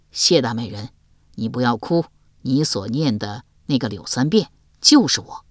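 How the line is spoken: Tender, soft. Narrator (Chinese): 柳三变见他对自己如此钟情，不忍再瞒，柔声说道

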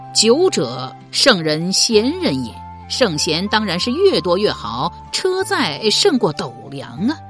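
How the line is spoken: Laughing reply. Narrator (Chinese): 刘伶笑答道

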